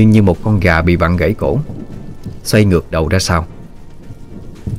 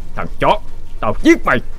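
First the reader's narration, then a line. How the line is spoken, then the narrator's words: Shouted while fighting. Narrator (Vietnamese): vừa đánh vừa hét lên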